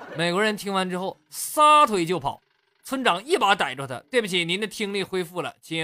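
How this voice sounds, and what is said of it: Usual voice. Nothing is said of it.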